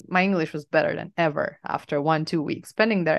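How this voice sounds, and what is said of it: Slight Eastern European accent. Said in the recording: “your accent is so funny... It's not the classic Eastern European tough, rough accent, but like people can sense it. Like native English speakers can definitely sense it.”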